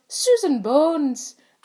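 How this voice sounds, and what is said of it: Put-on Scottish accent. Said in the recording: “That was my amazing Scottish accent.”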